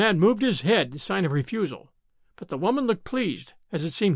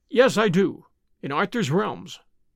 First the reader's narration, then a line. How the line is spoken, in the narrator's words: he answered